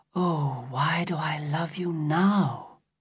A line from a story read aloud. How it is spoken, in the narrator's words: she said softly